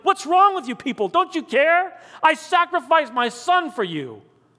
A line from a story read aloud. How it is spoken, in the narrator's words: John beat against the control room window while shouting